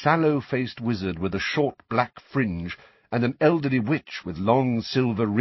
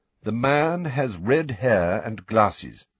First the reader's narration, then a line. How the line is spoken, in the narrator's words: said Dumbledore